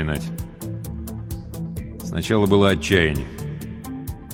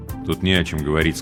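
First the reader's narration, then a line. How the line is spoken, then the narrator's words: Plain. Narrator (Russian): сказал он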